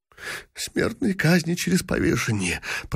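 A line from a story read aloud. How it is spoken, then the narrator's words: Dejected whisper. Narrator (Russian): прошептал бедный принц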